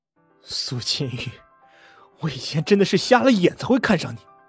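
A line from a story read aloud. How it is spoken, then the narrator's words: Through gritted teeth. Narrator (Chinese): 金昌平咬牙切齿的说着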